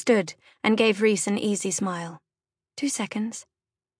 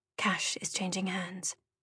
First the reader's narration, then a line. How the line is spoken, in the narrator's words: she whispered